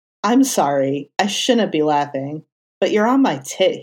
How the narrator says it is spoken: said

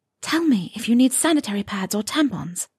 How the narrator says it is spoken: she whispered

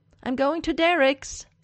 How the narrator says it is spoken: Styles yells at the house

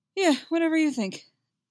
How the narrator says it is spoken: Alex blurts out, stupidly eager

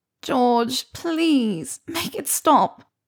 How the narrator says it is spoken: Pansy whined

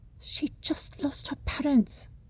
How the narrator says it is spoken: she whispers, shouts at him

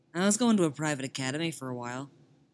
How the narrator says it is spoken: Tim says

